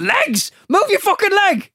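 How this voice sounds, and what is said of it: Shouting voice of a brain. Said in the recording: “That's how a brain would speak.”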